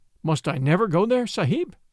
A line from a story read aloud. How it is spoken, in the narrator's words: asked Little Toomai with a big gasp